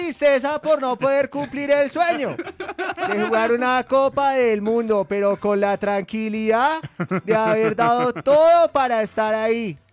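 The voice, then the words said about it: Imitates another person's voice, Argentine-style. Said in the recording (Spanish): “¿Quién quiere hacer la voz de Borré? ... como y si argentino? Lo hago así”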